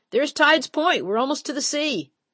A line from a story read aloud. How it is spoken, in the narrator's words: Jerome hollered